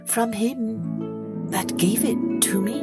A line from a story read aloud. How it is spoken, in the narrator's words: her heart melted, and she replied softly